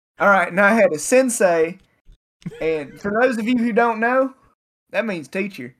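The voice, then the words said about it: Imitates another person's accent. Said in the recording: “I love that man with that accent”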